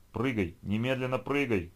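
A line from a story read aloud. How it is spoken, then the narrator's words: Shout in ear. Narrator (Russian): крикнул кто-то прямо ей в ухо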